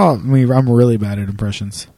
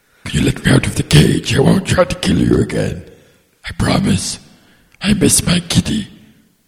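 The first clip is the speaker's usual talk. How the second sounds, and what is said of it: Good Dr. Claw impression. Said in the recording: “You did a good claw right there.”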